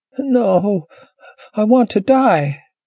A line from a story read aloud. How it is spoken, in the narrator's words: Ashenee whimpered